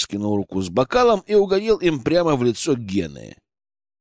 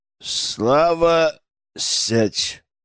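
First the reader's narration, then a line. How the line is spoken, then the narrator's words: Through clenched teeth. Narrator (Russian): процедил Дмитрий Александрович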